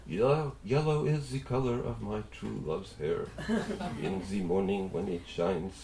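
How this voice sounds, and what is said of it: Put-on French accent, singing. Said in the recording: “here I put on my French accent”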